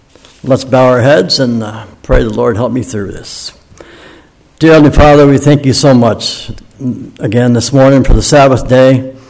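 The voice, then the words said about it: Slightly scratchy voice. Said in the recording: “my voice is a little scratchy from being in the pool so long”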